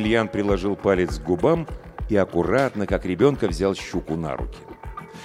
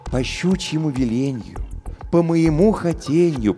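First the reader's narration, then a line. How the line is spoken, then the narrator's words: Cooing. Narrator (Russian): проворковал он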